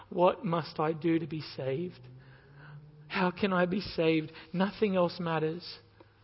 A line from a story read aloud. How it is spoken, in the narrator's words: trembling, and he cries out